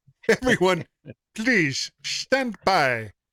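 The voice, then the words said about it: Slightly terrible put-on German accent. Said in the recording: “Said in a slightly terrible German accent.”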